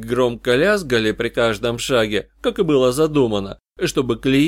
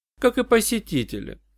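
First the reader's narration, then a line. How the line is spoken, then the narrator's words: Dry remark. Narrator (Russian): сухо заметила Джоанна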